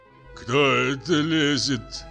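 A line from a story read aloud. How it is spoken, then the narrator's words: Hoarse heavy bass question. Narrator (Russian): спросил охрипший тяжелый бас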